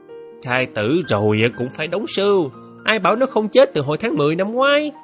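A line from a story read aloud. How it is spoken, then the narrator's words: Snapped irritably. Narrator (Vietnamese): Lý trưởng phát gắt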